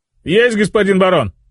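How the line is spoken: Nasal shout, bleeding nose. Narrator (Russian): Зажимая нос, из которого хлестала кровь, крикнул стражник

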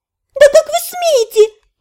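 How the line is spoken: Shrieking. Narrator (Russian): взвизгнула она

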